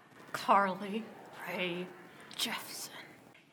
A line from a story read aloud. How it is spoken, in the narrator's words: he hissed between his teeth